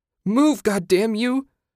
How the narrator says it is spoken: Susan shouted

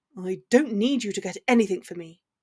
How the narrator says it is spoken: spat

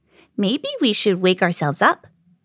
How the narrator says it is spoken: said Little Bird

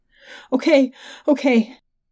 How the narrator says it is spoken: I sobbed

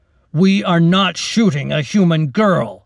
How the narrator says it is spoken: the captain said loudly

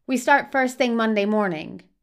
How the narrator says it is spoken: says

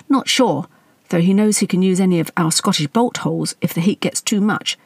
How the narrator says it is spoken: the prince replied

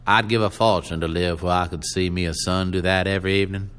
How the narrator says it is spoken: he said in a firm, nasal voice

